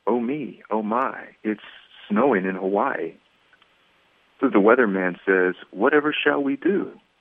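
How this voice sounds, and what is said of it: Storybook narrator voice. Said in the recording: “put my narrator voice on”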